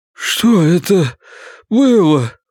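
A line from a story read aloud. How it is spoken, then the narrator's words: Pleading. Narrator (Russian): взмолился Гарольд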